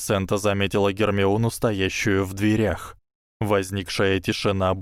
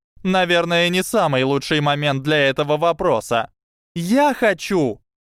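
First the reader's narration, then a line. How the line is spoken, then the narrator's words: Yelling. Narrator (Russian): заорала Трейси Дэвис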